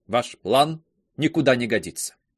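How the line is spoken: Cold. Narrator (Russian): Клеманс холодно добавила

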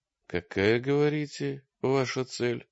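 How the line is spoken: Tense question. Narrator (Russian): спросил он напряженным голосом

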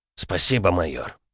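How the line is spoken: Mumbled. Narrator (Russian): пробормотал Салим

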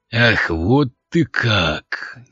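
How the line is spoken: Growling, bull. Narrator (Russian): голос рыжего быка больше походил на рычание

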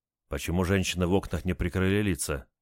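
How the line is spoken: Quiet question. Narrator (Russian): тихо спросил немец

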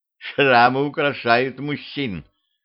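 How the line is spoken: Giggle. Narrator (Russian): хихикнула

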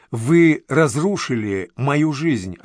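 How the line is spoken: Plain. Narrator (Russian): ответил Даниил

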